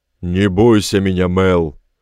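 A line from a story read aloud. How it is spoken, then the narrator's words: Roared. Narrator (Russian): проревел Этельберт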